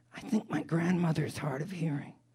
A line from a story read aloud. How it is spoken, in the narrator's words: The boy whispered in Catch's ear